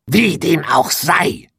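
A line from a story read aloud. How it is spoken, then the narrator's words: Witch hissing. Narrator (German): fauchte die Hexe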